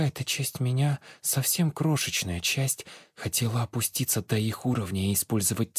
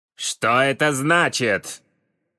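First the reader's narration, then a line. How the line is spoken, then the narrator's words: Bark. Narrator (Russian): Рявкнул профессор Малкинхайм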